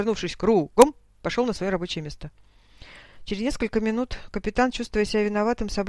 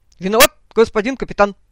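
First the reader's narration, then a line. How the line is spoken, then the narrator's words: Barked, stressed address. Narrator (Russian): Выделив голосом обращение, гаркнул Леха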